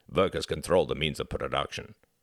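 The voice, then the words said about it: Put-on Russian accent. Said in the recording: “put on a Russian accent.”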